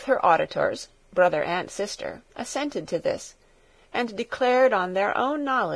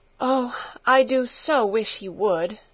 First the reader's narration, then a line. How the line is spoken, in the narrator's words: giving a long sigh, she added